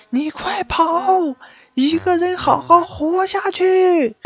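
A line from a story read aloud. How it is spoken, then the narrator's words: Wife shouting in danger. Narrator (Chinese): 和老婆一起被歹徒劫持，老婆大声的对我说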